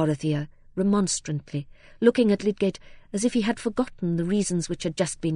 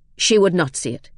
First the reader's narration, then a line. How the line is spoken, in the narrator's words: he said at last, curtly